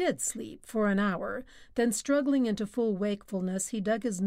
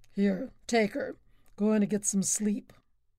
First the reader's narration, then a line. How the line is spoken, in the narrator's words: he rumbled at Roy